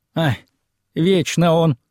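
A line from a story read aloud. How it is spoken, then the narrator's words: Sad. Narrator (Russian): печально качнула растрепанной головой хозяйка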